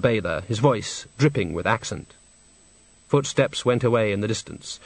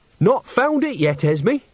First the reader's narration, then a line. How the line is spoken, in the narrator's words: said Nanny brightly